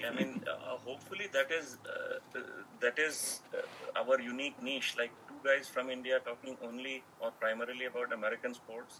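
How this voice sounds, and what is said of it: Indian English accent. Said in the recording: “With a funny accent, right?”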